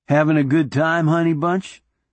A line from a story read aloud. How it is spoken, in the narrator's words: Doc inquired as cheerfully as possible